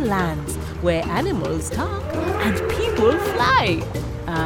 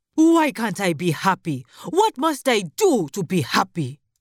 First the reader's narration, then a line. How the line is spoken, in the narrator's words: he shouted angrily